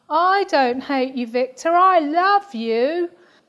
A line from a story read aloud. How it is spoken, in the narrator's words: Claire shouts down